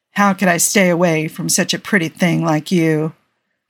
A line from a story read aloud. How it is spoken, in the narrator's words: the Corinthian purred, laying on the charm a little thick